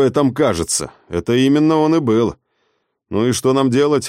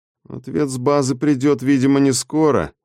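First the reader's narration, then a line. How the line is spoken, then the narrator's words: Dejected reasoning. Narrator (Russian): уныло рассудил Морис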